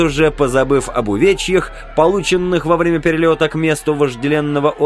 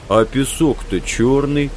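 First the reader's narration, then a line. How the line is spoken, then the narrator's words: Effortful mumble. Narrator (Russian): с трудом разлепляя губы, пробурчал на редкость наблюдательный Билл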